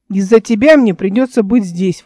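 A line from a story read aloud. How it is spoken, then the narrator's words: Grumbling. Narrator (Russian): ворчал он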